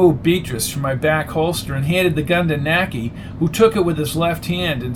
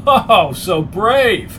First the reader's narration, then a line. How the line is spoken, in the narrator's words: bellowing laugh